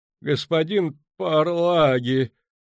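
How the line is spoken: Strained, forced out. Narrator (Russian): выдавил из себя Ван Влит

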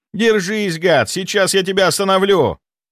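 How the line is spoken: Shouted. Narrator (Russian): выкрикнул он

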